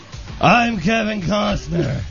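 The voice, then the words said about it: Drunk-sounding imitation of another person. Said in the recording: “my Kevin Costner impression ... You sound like you're drunk ... an impression of Kevin Costner as Batman”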